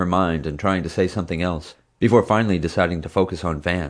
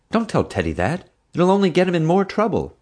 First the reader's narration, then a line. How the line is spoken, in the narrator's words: Mom gasped